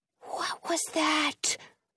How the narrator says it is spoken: Jonah whispers

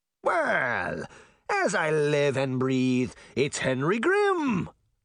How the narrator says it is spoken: the mayor cackled

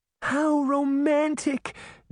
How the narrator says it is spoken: Daphne cried

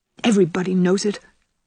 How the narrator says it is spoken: said Ruby bitterly

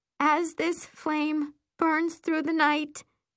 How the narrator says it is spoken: I whimper

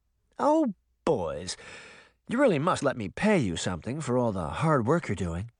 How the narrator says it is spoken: she purred

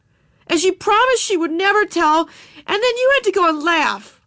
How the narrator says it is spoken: she shouted

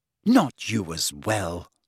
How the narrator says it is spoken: said Hermione bitterly

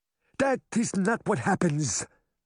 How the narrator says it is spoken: the Cowardly Lion cried

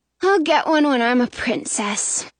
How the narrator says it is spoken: she says with a sigh

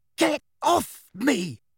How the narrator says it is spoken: Harry gasped

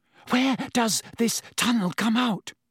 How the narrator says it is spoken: Hermione asked breathlessly from behind him

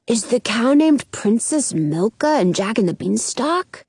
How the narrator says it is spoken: Jonah whispers

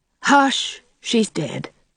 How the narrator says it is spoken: said Janet solemnly

